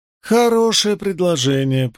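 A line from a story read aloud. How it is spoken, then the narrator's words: Melodious voice. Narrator (Russian): произнесла она мелодичным голосом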